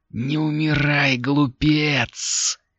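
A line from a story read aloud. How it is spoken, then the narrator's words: Fierce hiss. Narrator (Russian): свирепо зашипела голова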